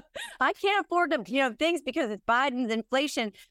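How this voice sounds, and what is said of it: Put-on Southern accent. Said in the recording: “I'm doing a Southern accent.”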